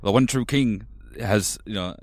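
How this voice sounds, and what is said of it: Imitates a fictional character's voice. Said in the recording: “I'll do Davos ... Who does a Davos impression? ... my Davos impression”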